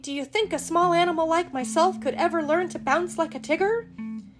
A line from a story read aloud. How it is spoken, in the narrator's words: said Piglet nervously